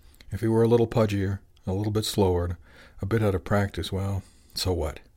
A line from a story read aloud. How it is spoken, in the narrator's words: He sighed happily